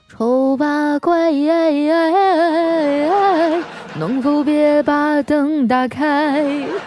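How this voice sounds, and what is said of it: Soft quiet singing. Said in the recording (Chinese): “在小声的唱”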